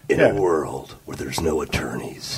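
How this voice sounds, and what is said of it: Dramatic movie trailer narrator voice. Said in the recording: “that's the movie trailer voice ... That's the movie trailer voice, too.”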